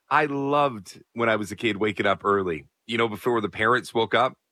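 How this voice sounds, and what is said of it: Raspy voice. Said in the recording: “My voice is a little raspy because I went to a wrestling show last night.”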